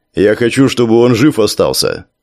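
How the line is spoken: Plain answer. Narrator (Russian): ответил жаб

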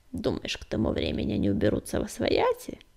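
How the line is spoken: Barely audible creak. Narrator (Russian): еле слышно проскрипела Кривуля

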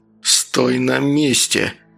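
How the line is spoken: Through gritted teeth. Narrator (Russian): процедил Луканов

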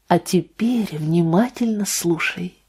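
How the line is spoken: Barely audible whisper. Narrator (Russian): еле слышно прошептала Анна

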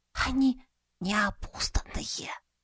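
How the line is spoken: Whisper. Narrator (Russian): шепотом поведала девушка

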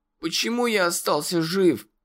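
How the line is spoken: Hoarse rasp, muffled by hands. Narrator (Russian): прохрипел ... закрывая лицо руками

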